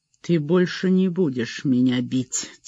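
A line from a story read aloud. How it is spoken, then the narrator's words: Quiet speech. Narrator (Russian): тихо сказал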